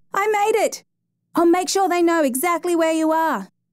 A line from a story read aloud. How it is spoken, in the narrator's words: gasping in disbelief, then yelled to Benson